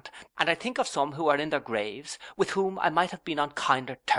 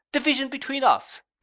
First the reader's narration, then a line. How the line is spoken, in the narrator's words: cried I